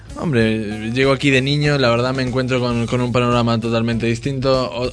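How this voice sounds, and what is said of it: Argentine Spanish accent. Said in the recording (Spanish): “cantautor argentino ... otro acento totalmente distinto al que me voy acostumbrando con los años, aunque bueno, se me seguirá notando”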